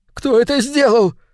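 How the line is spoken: Sudden shriek. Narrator (Russian): внезапно взвизгнул Кейл

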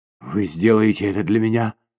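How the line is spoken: Hoarse with emotion. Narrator (Russian): охрипшим от волнения голосом спросила она

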